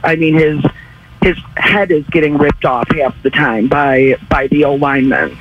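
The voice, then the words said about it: Slightly raspy voice. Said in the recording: “your voice is a little raspy today? ... you're you're screaming out”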